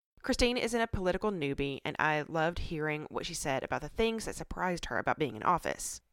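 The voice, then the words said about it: Congested, sick-sounding voice. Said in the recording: “I've got a cold. I'm sorry, it's probably not fun to listen to”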